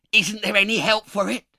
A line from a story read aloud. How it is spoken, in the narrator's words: asked the other man in a hoarse voice